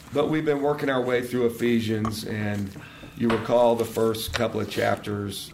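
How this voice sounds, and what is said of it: Noticeably affected, off-sounding voice. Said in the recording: “Sorry about my voice today. The allergies attacked me. The cedar finally got me this weekend, so I'm sorry about my voice.”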